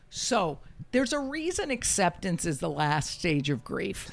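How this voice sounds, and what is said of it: Usual voice. Nothing is said of it.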